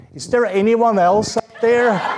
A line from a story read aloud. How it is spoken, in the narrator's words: the man shouted up again